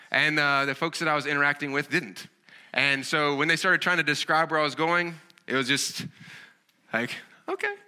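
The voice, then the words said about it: Southern American accent. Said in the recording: “as you can kind of tell from my accent, I have a Southern kind of accent.”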